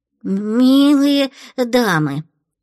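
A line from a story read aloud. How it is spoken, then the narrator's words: Stammering. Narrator (Russian): заикаясь, произнес спрайт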